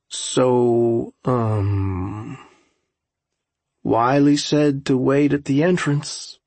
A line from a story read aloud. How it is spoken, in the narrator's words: Jared said slowly